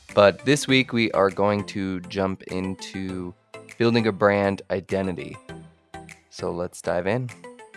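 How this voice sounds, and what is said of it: Stuffy, congested voice from a cold. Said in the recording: “I'm getting over a little bit of a cold, so excuse if I sound a little stuffy.”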